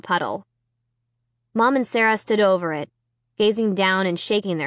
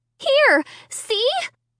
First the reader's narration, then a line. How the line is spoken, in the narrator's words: I cried